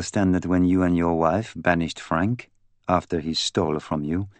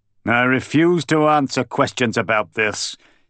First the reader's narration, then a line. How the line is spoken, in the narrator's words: Sidney Davenport roared